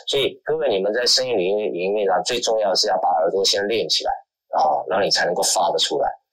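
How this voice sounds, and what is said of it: Southern Mandarin accent. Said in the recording (Chinese): “虽然我不是北方口音，我还是属于南方口音”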